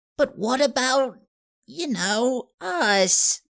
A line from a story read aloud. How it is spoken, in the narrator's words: Seymour wrung his fingers anxiously